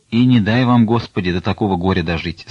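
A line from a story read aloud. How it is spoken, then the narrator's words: Plain. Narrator (Russian): сказал Потап Максимыч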